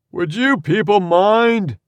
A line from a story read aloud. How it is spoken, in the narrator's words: Yul bellowed